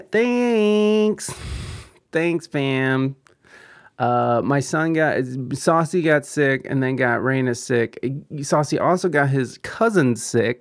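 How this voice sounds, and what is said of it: Slightly scratchy voice. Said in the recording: “If you can hear it in my voice, it's a little scratchy.”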